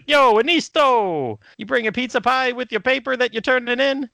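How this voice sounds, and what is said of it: Italian-American Mario-style accent. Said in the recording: “I used to do it in like the good old Mario Brother accent”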